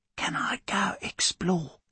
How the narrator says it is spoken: She whispers

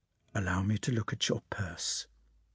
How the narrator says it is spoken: he said in a low, almost inaudible voice

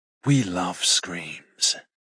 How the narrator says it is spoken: Xander whispers in my ear

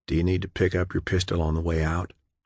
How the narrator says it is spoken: John whispered

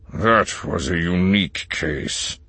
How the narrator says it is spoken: Yularen growled

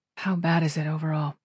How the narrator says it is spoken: She asked, her voice low

